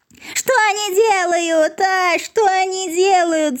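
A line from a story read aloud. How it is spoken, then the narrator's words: Howling yell. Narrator (Russian): завопил Клопс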